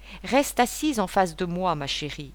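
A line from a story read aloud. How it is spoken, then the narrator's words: Plain. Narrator (French): lui dit-il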